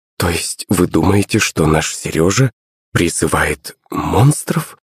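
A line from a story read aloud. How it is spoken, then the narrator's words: Mumbling. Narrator (Russian): пробормотала Наталья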